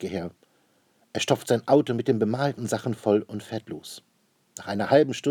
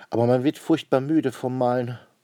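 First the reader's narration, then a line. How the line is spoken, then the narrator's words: Father sighing. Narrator (German): seufzt Papa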